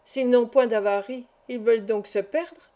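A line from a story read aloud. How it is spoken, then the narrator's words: Plain. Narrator (French): dit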